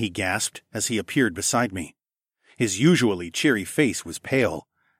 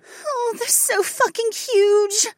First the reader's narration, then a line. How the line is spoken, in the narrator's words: Becca whimpered